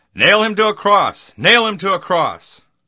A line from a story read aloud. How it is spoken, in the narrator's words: they kept shouting